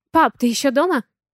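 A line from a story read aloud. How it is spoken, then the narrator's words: Excited, slightly anxious voice. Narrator (Russian): Его голос звучит возбужденно и немного взволнованно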